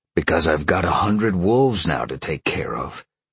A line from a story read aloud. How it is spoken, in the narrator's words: Sean grumbled